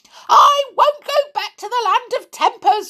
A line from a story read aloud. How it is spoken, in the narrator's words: yelled